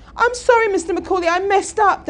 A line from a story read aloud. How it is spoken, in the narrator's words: Dan cried out